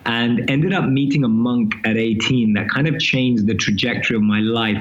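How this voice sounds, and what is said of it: London English accent. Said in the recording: “I'm born and raised in London, as you can probably tell from my accent.”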